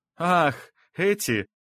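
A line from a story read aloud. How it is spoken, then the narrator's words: Young man's forced laugh. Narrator (Russian): наигранно засмеялся парень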